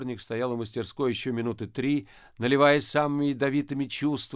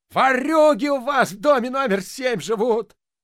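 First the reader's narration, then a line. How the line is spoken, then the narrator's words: Wailing yell. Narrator (Russian): вопил дворник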